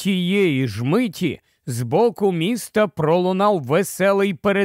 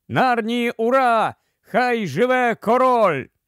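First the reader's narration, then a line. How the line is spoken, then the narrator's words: Crowd shouting. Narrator (Ukrainian): люди замахали руками і закричали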